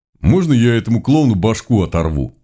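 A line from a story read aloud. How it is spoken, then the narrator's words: Gleeful grinning request. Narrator (Russian): Вновь ни к кому не обращаясь, попросил Глобус, не переставая радостно скалиться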